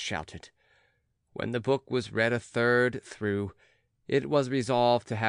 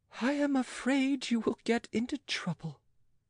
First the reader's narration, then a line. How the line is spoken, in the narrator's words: sighed Catherine, smiling sadly